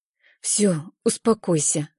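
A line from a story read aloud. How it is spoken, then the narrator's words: Quiet. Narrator (Russian): говорю я тихо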